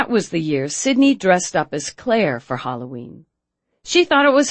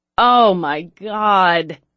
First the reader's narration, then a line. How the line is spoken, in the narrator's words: groaned